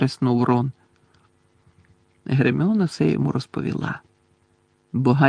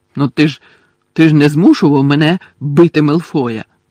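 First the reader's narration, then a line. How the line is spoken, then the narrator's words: Angry objection. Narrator (Ukrainian): сердито заперечив Гаррі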